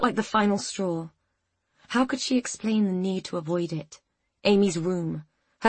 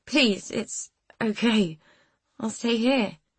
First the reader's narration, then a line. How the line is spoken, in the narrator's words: she pleaded, her voice cracking